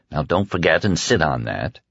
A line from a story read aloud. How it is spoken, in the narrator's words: Under his breath, Stu heard him mutter